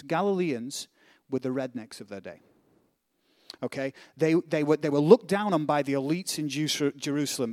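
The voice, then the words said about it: Northern English accent. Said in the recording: “I have this nice British accent ... Where I'm from in England ... I am a northerner”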